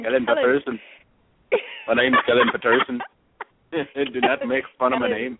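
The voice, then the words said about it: Put-on accent. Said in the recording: “I love that accent, though. You pulling that off. Great.”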